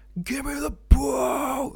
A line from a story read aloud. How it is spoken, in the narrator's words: Like screaming at the top of his lungs